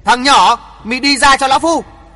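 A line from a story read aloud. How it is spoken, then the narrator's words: Old man's loud shout. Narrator (Vietnamese): Bắc Cực lão nhân đứng ngẩn ngơ một lúc rồi lớn tiếng hét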